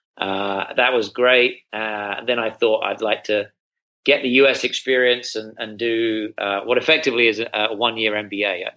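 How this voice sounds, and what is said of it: British accent. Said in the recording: “as you may be able to detect from my accent, I'm not from around these parts. I'm from the UK.”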